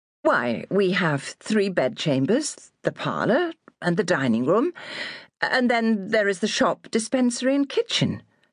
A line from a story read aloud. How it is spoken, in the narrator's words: stammered Susanna, taken aback